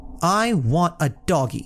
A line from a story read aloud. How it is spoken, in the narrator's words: the little girl said, or rather shouted